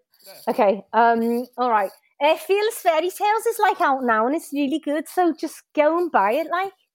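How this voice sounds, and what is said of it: Put-on Liverpudlian accent, fairly authentic. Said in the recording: “plug your book in a Liverpudlian accent ... that was really authentic. I thought you was going to go a bit more caricature.”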